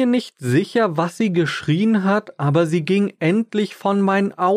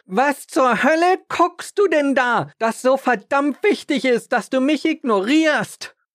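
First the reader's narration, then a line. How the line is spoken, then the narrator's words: Annoyed woman screaming. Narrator (German): ärgerte sich die Frau darüber, dass ich ihr nicht meine volle Aufmerksamkeit schenkte und schrie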